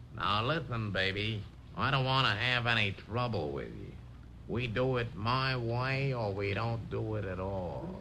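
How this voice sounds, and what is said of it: Impression of an American movie star. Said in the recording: “my humble impression of a few American movie stars ... how about this impression? ... he's really not bad”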